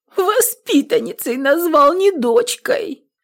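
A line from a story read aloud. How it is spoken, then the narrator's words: Shaking sobs, feeling wronged. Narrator (Russian): Нютка уже затряслась в том рыдании, что знакомо каждой женщине, пережившей несправедливость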